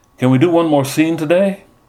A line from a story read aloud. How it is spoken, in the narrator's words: From the back of the room, Kool-Aid called out